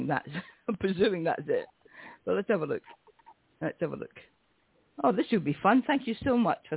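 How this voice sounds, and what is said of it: Usual voice. Nothing is said of it.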